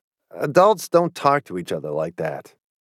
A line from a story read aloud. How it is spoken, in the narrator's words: I mumbled